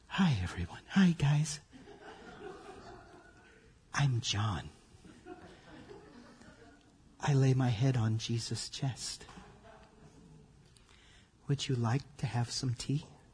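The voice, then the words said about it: Soft, calm public-radio announcer voice. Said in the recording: “get my NPR voice”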